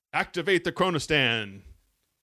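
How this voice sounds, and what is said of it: Captain Kirk impression. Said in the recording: “do a Captain Kirk impersonation”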